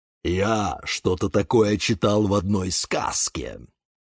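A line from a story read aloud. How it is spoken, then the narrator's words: Grumbled. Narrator (Russian): пробурчал папоротник Демьян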